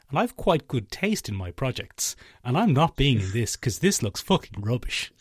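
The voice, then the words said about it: Imitates another person's voice. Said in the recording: “I'll do an impression. ... That was actually Hollywood actor Steven Yeun.”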